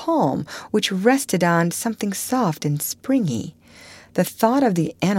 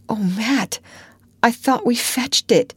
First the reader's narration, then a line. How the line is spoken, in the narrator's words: he moaned